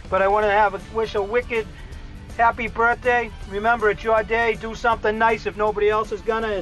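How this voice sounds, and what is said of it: Boston accent. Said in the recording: “my famous Boston accent”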